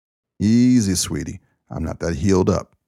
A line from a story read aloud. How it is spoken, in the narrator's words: Ken grunted